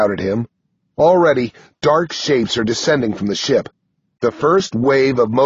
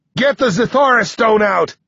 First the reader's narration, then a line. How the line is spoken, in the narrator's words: I shout to 6